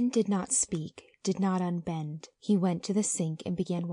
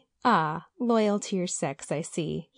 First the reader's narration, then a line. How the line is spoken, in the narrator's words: he laughed